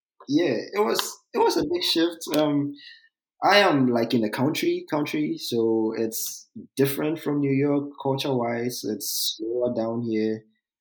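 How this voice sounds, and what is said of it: Accent with a southern drawl. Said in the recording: “I definitely detect a southern drawl in your in in that accent”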